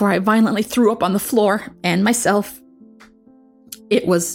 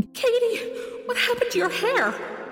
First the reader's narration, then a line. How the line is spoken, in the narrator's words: Mom gasping